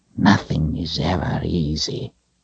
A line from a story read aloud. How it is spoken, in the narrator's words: he whispered